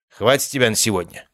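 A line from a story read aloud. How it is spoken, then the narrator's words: Cold, less hostile. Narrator (Russian): сказал он холодно, но уже далеко не так враждебно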